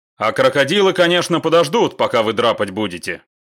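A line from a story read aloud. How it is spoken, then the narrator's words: Ironic snort. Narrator (Russian): иронично хмыкнул комбат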